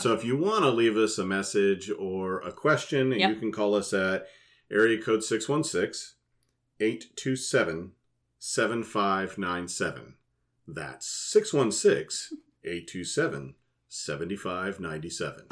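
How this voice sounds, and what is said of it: DJ-style radio announcer voice. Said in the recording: “his DJ's voice is coming up. He put on radio voice”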